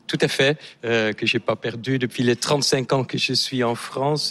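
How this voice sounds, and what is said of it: Slight Dutch accent. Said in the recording (French): “On voit que vous avez un léger accent... Je suis néerlandais”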